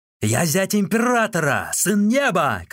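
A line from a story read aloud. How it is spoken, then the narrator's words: Shouting. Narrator (Russian): кричал он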